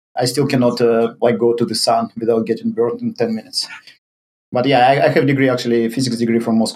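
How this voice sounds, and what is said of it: Russian-accented English. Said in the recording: “your accent doesn't sound Brazilian... I'm Russian”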